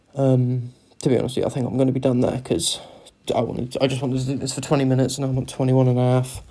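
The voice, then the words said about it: Cornish accent. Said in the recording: “don't I sound fucking Cornish? ... I sound so fucking Cornish.”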